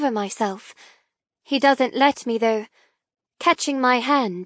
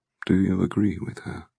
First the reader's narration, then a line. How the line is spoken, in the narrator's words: He murmurs softly